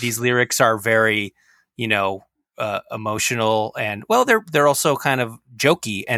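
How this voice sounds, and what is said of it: Usual voice. Nothing is said of it.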